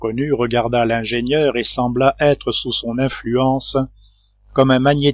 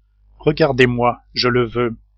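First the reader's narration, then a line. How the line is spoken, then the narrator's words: Firmer voice. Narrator (French): dit Cyrus Smith, d'une voix plus ferme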